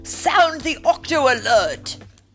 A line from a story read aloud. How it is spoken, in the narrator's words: bellowed Barnacles